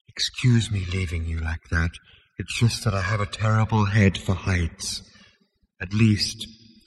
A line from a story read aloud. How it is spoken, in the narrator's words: it added wistfully